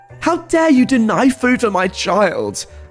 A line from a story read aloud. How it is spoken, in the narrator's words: She screamed at him